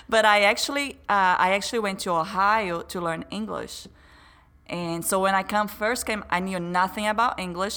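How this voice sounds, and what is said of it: Brazilian accent. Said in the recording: “as you may notice by my accent, I haven't born in the U.S. I'm a Brazilian.”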